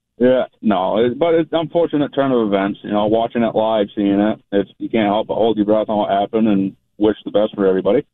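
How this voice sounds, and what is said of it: Maine accent. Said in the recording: “We love the accent. ... I love talking to a guy from Maine.”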